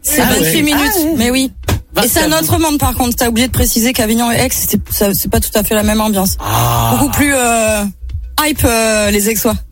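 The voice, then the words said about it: Southern French Avignon accent. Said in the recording (French): “j'ai encore l'accent d'Avignon ... l'accent est resté ... un peu l'accent d'en bas”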